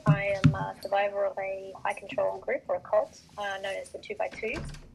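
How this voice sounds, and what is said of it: Australian accent. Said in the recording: “I'm Australian. You'll probably pick that up from my accent.”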